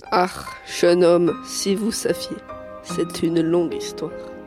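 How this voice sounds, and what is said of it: Put-on German accent in French. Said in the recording (French): “votre accent allemand, alors que vous êtes né à Nantes”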